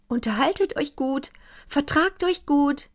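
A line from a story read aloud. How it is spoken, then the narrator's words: Calling downward. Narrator (German): rief hinab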